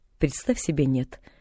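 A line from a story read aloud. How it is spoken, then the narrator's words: Dry reply. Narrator (Russian): сухо отозвалась миссис Сноу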